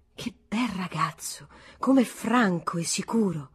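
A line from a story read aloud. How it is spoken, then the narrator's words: Quiet group exclamation. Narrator (Italian): Tutti esclamarono piano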